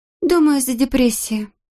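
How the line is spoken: Sighing. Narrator (Russian): Ханна вздохнула

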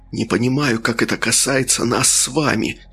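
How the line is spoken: Hissing reply. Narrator (Russian): в ответ прошипел Трясогузов

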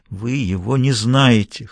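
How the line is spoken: Hoarse repetition. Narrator (Russian): хрипло повторила она

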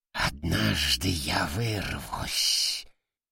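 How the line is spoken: Hateful hiss. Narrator (Russian): с ненавистью прошипел

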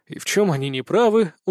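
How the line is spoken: Tired smirk. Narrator (Russian): устало усмехнулся

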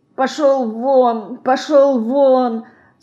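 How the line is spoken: Sleepy mumble. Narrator (Russian): сонно бормочет

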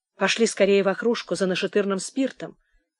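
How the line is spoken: Quiet, commanding. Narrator (Russian): тихо и повелительно приказала она

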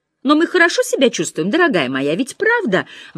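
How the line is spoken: Anxious question. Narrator (Russian): взволнованно спросила она

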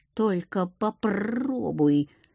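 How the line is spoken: Sudden near growl. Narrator (Russian): вдруг почти зарычал Акир

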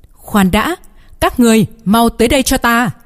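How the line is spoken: Shouted. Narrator (Vietnamese): Đám người vĩ trùng tộc bên này hét lên một tiếng

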